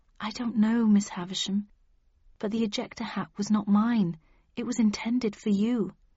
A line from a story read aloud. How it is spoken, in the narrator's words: sighed